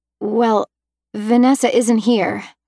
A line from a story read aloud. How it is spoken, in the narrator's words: I stammered